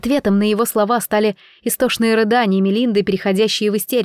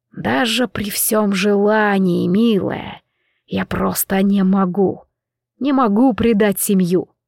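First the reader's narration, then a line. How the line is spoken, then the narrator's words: Caustic whisper. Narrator (Russian): произнес едким шепотом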